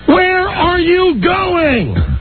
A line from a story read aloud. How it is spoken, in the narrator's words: yelling